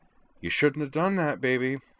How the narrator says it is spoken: he murmured, wiping at his bloody nose

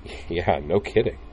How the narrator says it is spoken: Utina chuckled

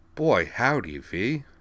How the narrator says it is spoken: said Gudrun Trumace

